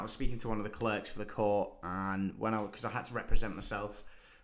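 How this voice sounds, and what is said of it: British accent. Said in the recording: “No, what are you, British?" Like, I can hear your accent.”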